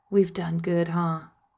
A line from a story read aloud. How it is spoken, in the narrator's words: whisper into his ear